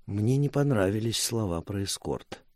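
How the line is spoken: Quiet. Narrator (Russian): тихо сказала Мира

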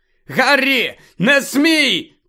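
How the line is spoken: Shouting. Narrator (Ukrainian): крикнув Люпин

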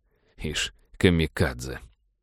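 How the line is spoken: Grumbling. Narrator (Russian): проворчал капитан

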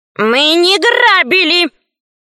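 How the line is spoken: Group shout. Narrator (Russian): закричали ящерицы

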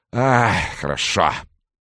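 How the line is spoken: Relieved exhale. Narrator (Russian): выдохнул он

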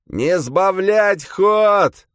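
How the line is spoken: Roaring. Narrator (Russian): взревел Даррент

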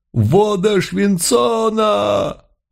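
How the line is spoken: Agonized collective howl. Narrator (Russian): Взвыли все, мгновенно покрываясь язвами, глубокими ранами, дымясь и едва не распадаясь на части

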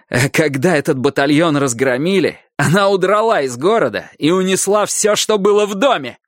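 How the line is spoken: Yelling loudly. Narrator (Russian): Наверное, я уже здорово орал

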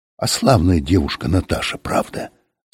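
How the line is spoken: Whisper. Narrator (Russian): сказал кто-то шепотом

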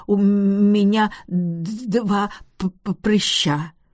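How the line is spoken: Stuttering. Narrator (Russian): кузину Фанни Готфри, бедняжку Фанни, которая заикалась, говоря

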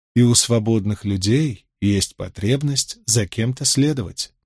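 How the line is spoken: Gentle objection. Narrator (Russian): мягко возразила Фейли

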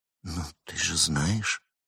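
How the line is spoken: Reluctantly forced out. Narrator (Russian): Хагар выдавила из себя

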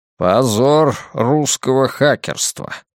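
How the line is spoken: Mutter. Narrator (Russian): бормочет падла

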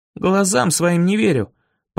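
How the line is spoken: Groaning. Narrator (Russian): простонал я

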